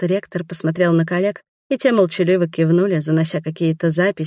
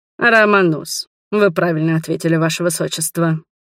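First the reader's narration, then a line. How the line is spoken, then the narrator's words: Smirking grunt. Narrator (Russian): хмыкнул ректор Бромвис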